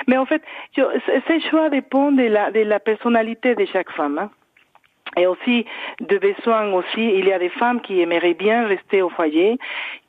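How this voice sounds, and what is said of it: Mexican Spanish accent in French. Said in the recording (French): “Vous entendez mon accent, je viens de Mexique.”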